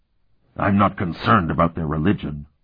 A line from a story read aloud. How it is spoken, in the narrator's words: Euloth rumbled